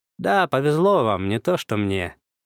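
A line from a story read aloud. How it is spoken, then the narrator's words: Ironic snort. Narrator (Russian): иронично хмыкнул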